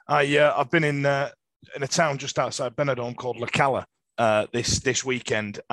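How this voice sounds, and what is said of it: Hoarse, rough voice. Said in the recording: “sounding a little bit hoarse, a little bit uh, little bit ropey ... the bad throat ... Spanish throat”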